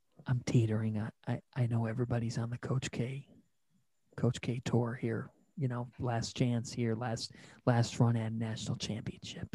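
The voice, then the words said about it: Quiet, close-to-mic speech. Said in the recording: “I'm going to get real close to the microphone here because I'm kind of saying it quietly.”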